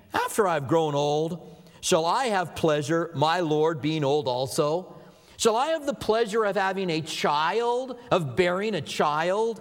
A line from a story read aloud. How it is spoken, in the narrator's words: Sarah laughed within herself, saying